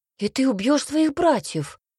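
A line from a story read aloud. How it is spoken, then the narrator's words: Exclamation. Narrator (Russian): воскликнул Цинта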